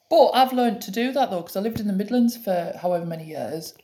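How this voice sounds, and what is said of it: Durham English accent. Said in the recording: “I speak differently to what I do if I was with people from Durham ... They used to like my accent ... They like my accent”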